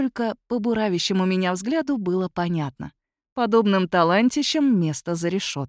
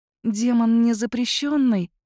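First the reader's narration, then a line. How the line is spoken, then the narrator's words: Timid reminder. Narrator (Russian): робко напомнила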